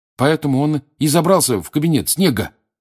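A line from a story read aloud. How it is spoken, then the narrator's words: Triumphant exclamation. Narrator (Russian): торжествующе воскликнул Рон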